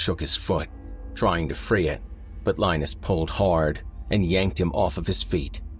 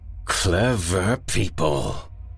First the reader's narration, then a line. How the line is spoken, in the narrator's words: snarled the man in the suit